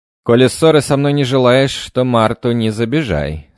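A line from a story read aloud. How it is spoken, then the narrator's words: Stern. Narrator (Russian): строго сказал я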